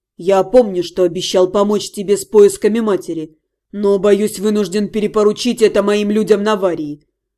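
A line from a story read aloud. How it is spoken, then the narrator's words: Even-toned reply. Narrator (Russian): ровным голосом ответил Вашарий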